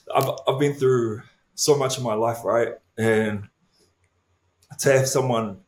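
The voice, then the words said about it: Choked-up, emotional voice. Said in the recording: “I'm going to get all emotional ... oh my gosh, I'm getting all choked up now.”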